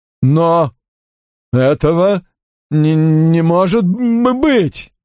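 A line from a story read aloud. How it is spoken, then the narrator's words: Stammering. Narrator (Russian): произнес он, заикаясь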